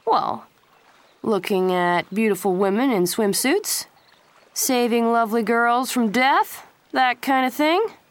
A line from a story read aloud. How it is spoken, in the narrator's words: Pacey said lazily